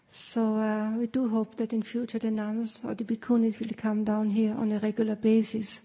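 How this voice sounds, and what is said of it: Austrian-accented English. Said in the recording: “as you can tell from my accent, I'm from Austria”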